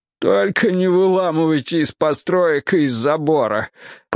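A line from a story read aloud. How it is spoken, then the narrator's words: Groaning. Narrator (Russian): простонал Осберн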